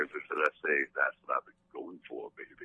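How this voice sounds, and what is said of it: Deep, sexy crooning voice. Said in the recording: “I'm going to talk to you in a real sexy way ... You have such a gay Barry White going on ... doing your Barry White voice”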